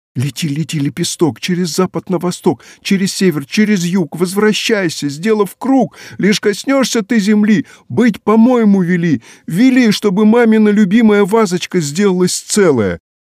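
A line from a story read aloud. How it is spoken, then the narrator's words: Shouting. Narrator (Russian): закричала Женя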